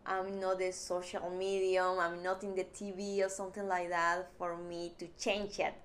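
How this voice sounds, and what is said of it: Non-native English accent. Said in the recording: “change my accent ... because my accent”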